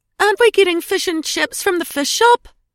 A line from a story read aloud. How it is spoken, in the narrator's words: Edie whined